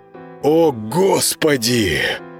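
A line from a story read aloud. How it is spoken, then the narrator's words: Admiring breathy. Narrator (Russian): восхищенно выдохнул Володаров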